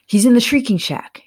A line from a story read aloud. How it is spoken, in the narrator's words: Harry blurted out